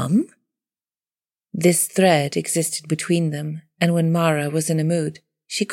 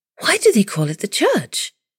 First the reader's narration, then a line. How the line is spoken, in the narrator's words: She asked, too eagerly